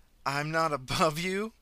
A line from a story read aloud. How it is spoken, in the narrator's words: the woman laughed